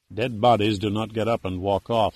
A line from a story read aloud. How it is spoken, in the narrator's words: said Pitt flatly